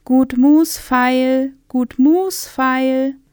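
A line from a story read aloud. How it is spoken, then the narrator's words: Peasant woman calling wares. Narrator (German): eine Bauersfrau rief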